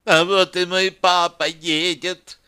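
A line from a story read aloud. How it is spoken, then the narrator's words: Whiny squeaky voice. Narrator (Russian): сказала Яна капризным писклявым голоском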